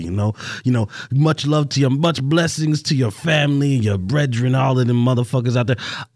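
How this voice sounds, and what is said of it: Put-on Caribbean or Italian accent. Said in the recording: “appropriating Caribbean culture ... Was that Caribbean? I thought it was Italian. ... I was getting Italian. I was more of a Godfather type. Yeah, it did kind of merge. ... I didn't tell you I was an accent master.”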